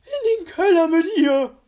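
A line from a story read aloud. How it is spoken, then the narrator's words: Shrieking. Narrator (German): kreischte Herr Glimmer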